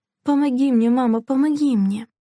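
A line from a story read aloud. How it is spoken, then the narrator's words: Pleading. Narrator (Russian): взмолилась Делла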